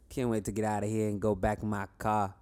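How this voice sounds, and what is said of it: Exaggerated Rhode Island accent. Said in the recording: “He's from Rhode Island, so you got to listen to his accent. ... What is your accent? Let's hear that.”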